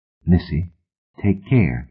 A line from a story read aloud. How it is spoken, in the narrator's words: he said, too quietly for the others to hear